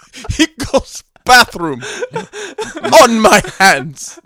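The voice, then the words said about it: Put-on Russian accent. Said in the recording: “My favorite Russian accent moment”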